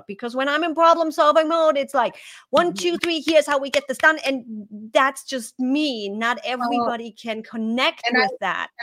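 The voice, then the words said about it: German accent. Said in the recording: “I do have this accent ... from being a German”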